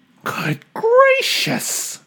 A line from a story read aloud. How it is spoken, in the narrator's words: gasped Maisie